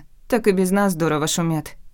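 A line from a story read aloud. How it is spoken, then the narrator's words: Snorting. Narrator (Russian): фыркнула Альва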